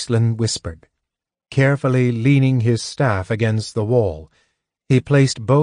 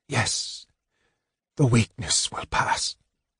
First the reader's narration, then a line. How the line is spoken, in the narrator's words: Raistlin whispered